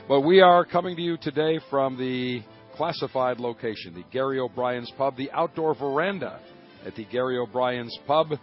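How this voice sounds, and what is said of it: Strained, not yet recovered voice. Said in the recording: “As you can tell, my voice has still not recovered because we went from early morning till late in the evening”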